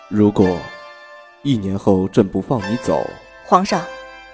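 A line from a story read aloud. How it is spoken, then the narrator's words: Low, heavy voice. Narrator (Chinese): 魏凌风声音沉沉的道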